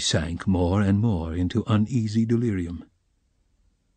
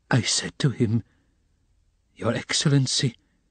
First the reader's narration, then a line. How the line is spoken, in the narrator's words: she ejaculated, gasping after each word